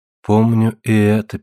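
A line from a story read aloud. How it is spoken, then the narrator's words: Sad. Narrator (Russian): печально сказала Таис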